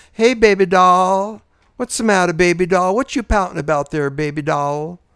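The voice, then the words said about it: Put-on Southern accent. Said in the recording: “They all had a Southern accent.”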